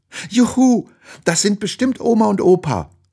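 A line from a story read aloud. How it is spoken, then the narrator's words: Excited shout. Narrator (German): ruft sie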